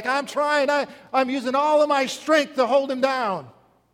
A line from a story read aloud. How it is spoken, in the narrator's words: Corruption shouts back